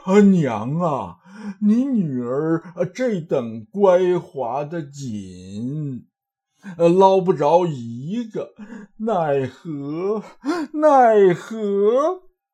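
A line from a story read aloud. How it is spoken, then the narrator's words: Panting. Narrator (Chinese): 跌得嘴肿头青，坐在地下喘气呼呼的道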